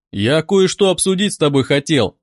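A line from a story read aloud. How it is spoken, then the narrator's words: Plain. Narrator (Russian): сказал я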